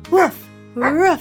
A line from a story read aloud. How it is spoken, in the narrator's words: she barked